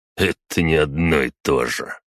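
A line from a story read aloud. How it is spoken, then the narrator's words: Snorting nobleman. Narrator (Russian): хмыкнул граф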